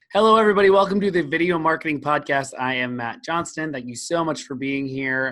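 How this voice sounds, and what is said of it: Hoarse, weak voice. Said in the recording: “You can probably hear that my voice is hoarse or bad or barely existent... I'm getting over being sick”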